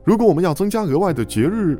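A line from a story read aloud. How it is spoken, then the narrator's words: Sudden loud shout. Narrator (Chinese): 迪里忽然高声喊道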